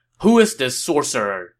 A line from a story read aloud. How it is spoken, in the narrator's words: Sun Ce asked angrily